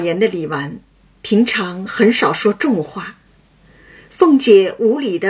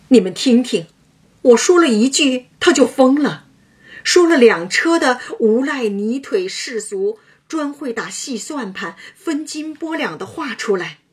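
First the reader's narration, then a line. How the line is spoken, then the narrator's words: Laughing. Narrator (Chinese): 李纨笑道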